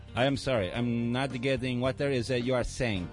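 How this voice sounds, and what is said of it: Weird put-on foreign accent. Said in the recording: “What a weird accent.”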